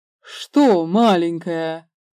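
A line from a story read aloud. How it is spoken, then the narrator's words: Man laughing. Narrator (Russian): Мужчина, смеясь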